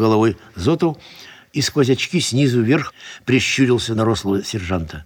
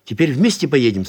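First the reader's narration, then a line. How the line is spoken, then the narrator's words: Plain question. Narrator (Russian): спросил Гайдуков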